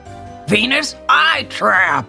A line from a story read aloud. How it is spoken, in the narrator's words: snaps